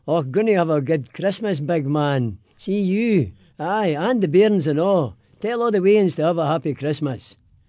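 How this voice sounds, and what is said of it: Put-on Glaswegian Scottish accent. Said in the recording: “give me your best Merry Christmas in a Scottish brogue ... but in a Scottish accent, in Glaswegian”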